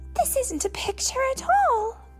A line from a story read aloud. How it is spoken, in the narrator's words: cried Katie